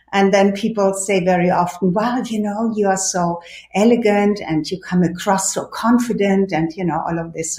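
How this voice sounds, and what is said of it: European accent. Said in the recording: “I'm not from the United States, so I already have an accent. So I'm European”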